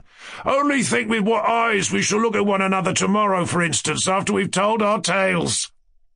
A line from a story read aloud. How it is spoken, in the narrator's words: Ferdyshenko cried with sudden inspiration